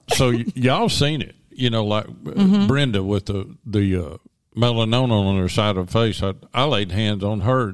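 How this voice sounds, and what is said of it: Genuine Southern US accent. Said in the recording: “this is a real Southern accent. This is not fake. ... this is the real deal.”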